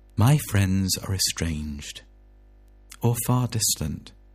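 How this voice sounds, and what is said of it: Mock radio DJ voice. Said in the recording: “I'll say it in the DJ voice”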